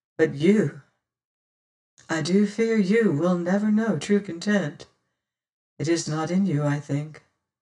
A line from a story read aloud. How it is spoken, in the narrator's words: says she slowly